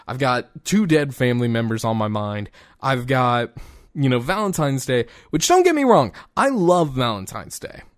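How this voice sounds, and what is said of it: Tired, emotionally exhausted voice. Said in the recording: “as you can tell in my voice, that was also a step of emotional exhaustion and mental exhaustion”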